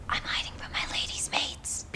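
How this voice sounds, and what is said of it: Whispering. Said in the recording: “Why are we whispering?”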